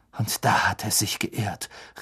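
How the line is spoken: Calling out. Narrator (German): rief Harry

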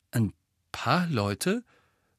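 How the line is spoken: Husky voice. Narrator (German): sagte Harry mit belegter Stimme zu Hermine

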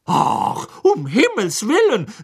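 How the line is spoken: Said angrily. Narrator (German): sagte Hermine wütend

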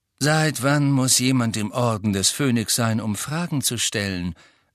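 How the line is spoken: Plain. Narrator (German): sagte Sirius

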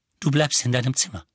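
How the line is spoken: Plain. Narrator (German): sagte

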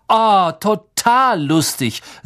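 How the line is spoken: Plain. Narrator (German): sagte Malfoy

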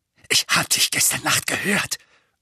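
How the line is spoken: Breathless. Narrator (German): sagte Dudley atemlos

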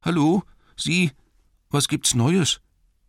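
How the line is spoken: Called in shaky voice. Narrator (German): rief er mit zittriger Stimme

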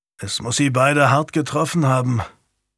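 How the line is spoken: Murmured. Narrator (German): murmelte Daniel

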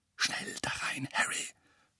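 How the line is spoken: Whisper. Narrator (German): flüsterte Lupin

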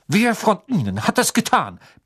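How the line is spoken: Barked sharply. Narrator (German): bellte er

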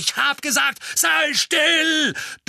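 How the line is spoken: Thundering. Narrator (German): donnerte der Mann

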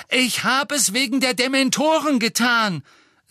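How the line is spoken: Loud, hurried. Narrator (German): sagte laut, bevor ihm wieder jemand ins Wort fallen konnte

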